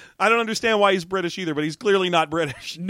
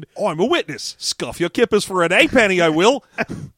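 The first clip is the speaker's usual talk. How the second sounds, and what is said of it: Deliberately bad fake British accent. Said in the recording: “put on the worst British accent you can ... the shitty British accent like we are doing ... a fake British guy”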